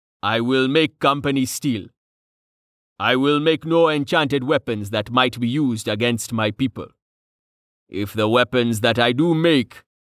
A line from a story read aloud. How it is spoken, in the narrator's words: rumbled ominously